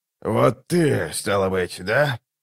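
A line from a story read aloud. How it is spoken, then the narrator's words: Hoarse question. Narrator (Russian): хрипло спросил прибывший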